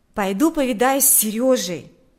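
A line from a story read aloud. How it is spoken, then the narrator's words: Exclamation. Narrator (Russian): воскликнул Миша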